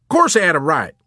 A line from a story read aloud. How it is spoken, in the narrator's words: General Peckham snapped with cold and calculated severity